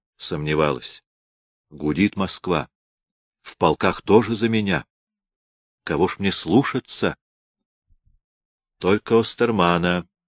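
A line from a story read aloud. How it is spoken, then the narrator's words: Charming whisper. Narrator (Russian): нашептывал обворожительный Корф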